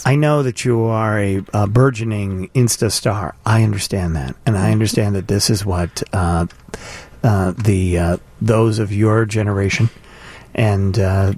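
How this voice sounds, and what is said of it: Mock public-radio announcer voice. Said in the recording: “Why are you ... talking you the NPR voice?”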